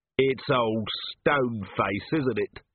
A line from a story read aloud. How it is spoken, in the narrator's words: said Vimes flatly